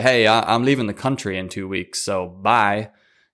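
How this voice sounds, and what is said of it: Odd put-on accent. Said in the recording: “What the hell was that accent?”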